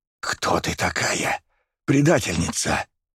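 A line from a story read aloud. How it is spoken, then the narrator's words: Hissed. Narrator (Russian): прошипела граф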